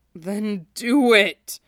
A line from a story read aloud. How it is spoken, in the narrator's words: Shiro groaned